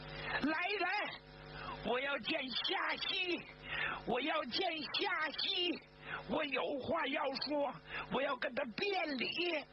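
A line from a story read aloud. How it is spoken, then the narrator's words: Loud emotional shout. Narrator (Chinese): 他再也控制不住自己的情绪了，就大声的冲外边喊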